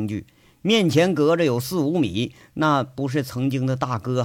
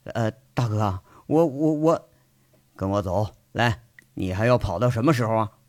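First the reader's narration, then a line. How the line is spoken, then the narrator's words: Insistent, brooking no argument. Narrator (Chinese): 杨伟是不容分说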